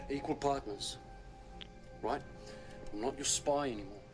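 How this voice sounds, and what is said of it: Some kind of English accent. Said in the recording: “what accent has ... got there? ... It's got to be some kind of English accent.”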